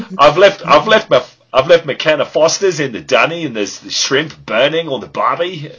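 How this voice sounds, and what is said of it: Exaggerated Australian bushman accent. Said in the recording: “accent is epic ... That's an epic accent ... like we just had Bushman in the cast right there ... either Bushman or Crocodile Dundee”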